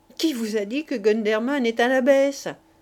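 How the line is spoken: Sneering. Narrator (French): dit Pierrot ricanant

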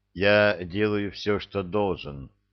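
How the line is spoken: Dull, flat voice. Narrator (Russian): тусклым голосом продолжил император

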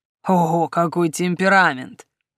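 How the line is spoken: Mocking drawl. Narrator (Russian): насмешливо протянул лорд

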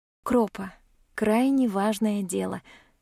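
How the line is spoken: Affectionate. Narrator (Russian): ласково произношу я

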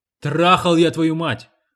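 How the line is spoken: Barking man. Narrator (Russian): рявкнул мужчина

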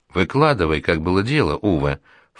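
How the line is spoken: Soft ingratiating voice. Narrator (Russian): вкрадчиво проговорила Парване

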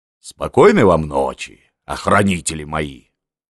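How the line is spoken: Deep bass voice. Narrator (Russian): пожелала басом

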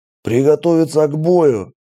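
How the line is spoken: Half-voiced bark. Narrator (Russian): в полголоса рявкнул Джон

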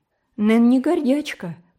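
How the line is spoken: Impulsive exclamation. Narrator (Russian): порывисто воскликнула Ди

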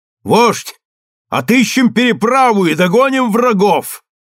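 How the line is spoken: Shout. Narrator (Russian): Железная рубаха крикнул моему дяде

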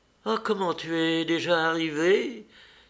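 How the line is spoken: Exclaimed. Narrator (French): s'écria-t-elle

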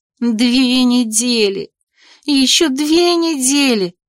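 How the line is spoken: Moaning. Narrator (Russian): стонала

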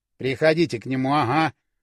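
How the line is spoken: Grumbled. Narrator (Russian): пробурчал Юрка

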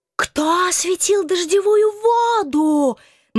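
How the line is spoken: Hysterical one-note wail. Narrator (Russian): На одной истерической ноте вопил дьявол

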